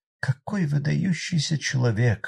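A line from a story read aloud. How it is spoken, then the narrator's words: Sighing. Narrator (Russian): вздохнула мисс Мэри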